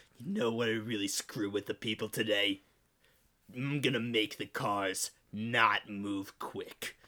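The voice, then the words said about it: Imitates another person's voice. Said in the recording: “doing a Chris Christie impression”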